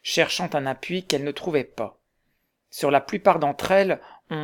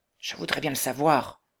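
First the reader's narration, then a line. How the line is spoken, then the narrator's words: Low voice. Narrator (French): répondit Huckleberry à voix basse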